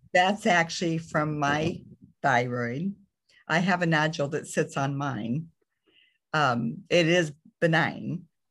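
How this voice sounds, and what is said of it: Raspy voice. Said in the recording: “my raspy voice ... My voice didn't always sound like this”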